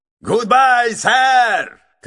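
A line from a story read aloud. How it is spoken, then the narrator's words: Shouting. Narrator (Russian): кричал Адамс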